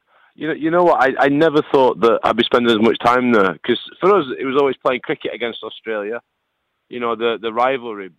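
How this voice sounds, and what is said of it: Northern English accent. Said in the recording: “we've come to know that northern accent and love it”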